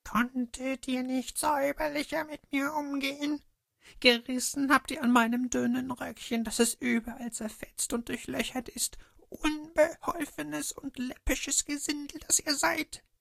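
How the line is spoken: Shrill shriek, shaken dwarf. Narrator (German): Als der Zwerg sich von dem ersten Schrecken erholt hatte, schrie er mit einer kreischenden Stimme

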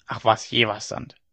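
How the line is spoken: Old woman grumbling. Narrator (German): brummte die Alte

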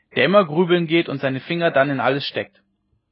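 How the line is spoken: Called out. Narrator (German): rief einer von den Gestleuten

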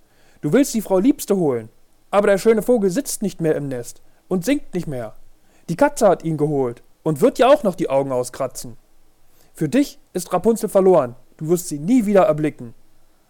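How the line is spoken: Mocking call. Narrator (German): rief sie höhnisch

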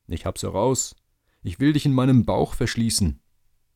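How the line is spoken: Calling. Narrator (German): rief er

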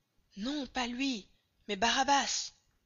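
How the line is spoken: Crowd shouting. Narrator (French): de nouveau tous s'écrièrent

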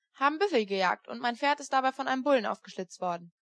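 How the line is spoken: Plain. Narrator (German): antwortete Sam Hawkins

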